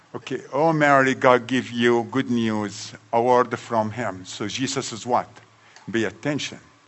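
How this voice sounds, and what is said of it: Strong accent. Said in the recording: “my accent will kill you”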